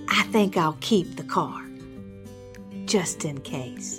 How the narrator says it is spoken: she whispered to Harold

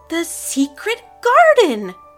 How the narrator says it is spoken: Kara cried, reading the title on the poster

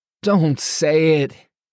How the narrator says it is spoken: Alex cried out

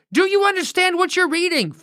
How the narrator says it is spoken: Philip yelled up at the man

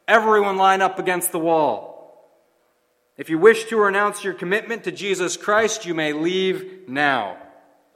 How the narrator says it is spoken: One shouted

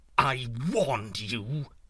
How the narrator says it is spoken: snapped

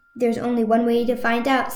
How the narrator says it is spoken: said Azmina

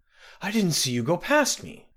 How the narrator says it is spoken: gasped

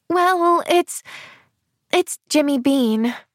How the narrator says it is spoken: sighed Pollyanna

